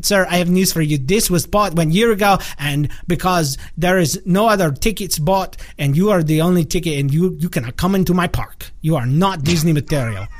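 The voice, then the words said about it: Mangled Norwegian-Russian put-on accent. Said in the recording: “That was like a Russian-esque, messed up, jacked up Norwegian accent ... there was some Irish in there too, I think.”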